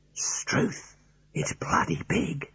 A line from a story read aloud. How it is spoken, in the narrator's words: in a low whisper